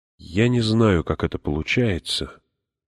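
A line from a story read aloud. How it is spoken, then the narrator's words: Soft. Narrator (Russian): начала мягко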